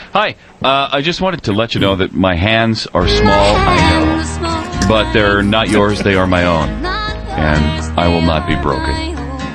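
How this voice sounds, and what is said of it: Imitates another person's voice. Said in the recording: “you sounded like Al Gore back in the day ... That was my Al Gore imitation.”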